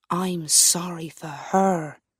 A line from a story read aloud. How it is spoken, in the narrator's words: said quietly